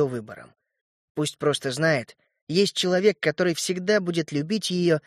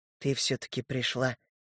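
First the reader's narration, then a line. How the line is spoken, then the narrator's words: Timid whisper. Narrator (Russian): несмело прошептал я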